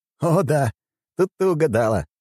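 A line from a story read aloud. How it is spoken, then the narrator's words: Short laugh. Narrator (Russian): хохотнул я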